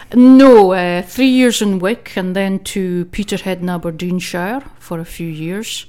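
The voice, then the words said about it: Northeast Scottish accent. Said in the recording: “I think you can tell by accent I'm not quite from Saltcoats. I was actually born in Wick in Caithness ... So mostly a northeast quine”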